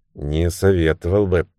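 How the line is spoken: Muttered. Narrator (Russian): пробормотал Джимми

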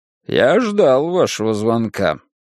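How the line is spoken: Lecturing tone. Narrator (Russian): менторским тоном отозвался он

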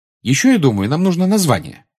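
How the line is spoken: Cheerful. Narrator (Russian): бодро сказала она

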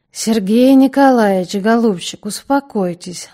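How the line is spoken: Gentle soothing. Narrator (Russian): ласково сказал крикуну Коровин

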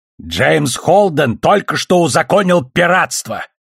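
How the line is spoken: Harsh bark. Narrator (Russian): рявкнула с луны Авасарала

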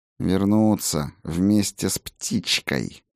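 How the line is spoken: Through gritted teeth. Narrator (Russian): процедила волшебница

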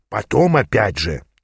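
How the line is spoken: Quiet whisper. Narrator (Russian): тихо шепнул Аас

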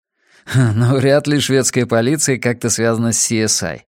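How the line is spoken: Laughing. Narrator (Russian): рассмеялся Рекс

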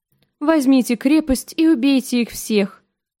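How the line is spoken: Bored tone. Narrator (Russian): Скучным тоном произнес сир Амари

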